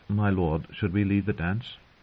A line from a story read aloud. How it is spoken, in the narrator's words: timidly said